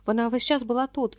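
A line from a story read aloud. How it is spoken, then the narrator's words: Astonished exclamation. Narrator (Ukrainian): вражено вигукнув Рон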